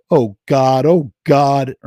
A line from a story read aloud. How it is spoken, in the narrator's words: Ernie moaned in sick revulsion